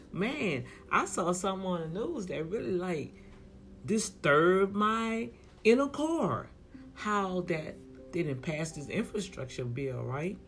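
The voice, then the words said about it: Strained, worn-out voice. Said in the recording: “Excuse my voice, ... I've been talking all this weekend, and I'm feeling it now in my voice.”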